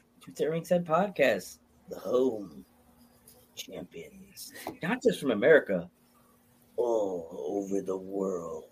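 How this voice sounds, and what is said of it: Movie theater announcer voice. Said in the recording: “That's like your movie theater announcement voice”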